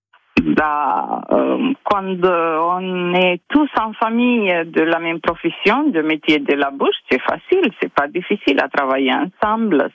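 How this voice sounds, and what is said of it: Slight Italian accent. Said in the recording (French): “On sent bien l'Italie ... il y a un petit accent ... vous alliez craquer pour l'accent ... Il y a un petit accent qui nous fait voyager”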